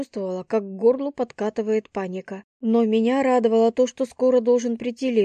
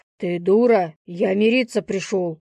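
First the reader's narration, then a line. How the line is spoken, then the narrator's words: Growling. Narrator (Russian): Прорычал он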